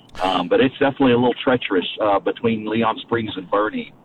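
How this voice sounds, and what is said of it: Polished radio announcer voice. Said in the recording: “I could tell that radio voice anywhere.”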